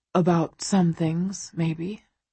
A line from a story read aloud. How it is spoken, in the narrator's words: he says quietly